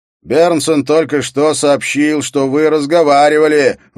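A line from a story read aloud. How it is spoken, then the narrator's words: Shouted. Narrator (Russian): выкрикнул Скарре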